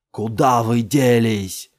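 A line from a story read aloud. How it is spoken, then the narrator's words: Impatient yell. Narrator (Russian): заорал Джамил, теряя терпение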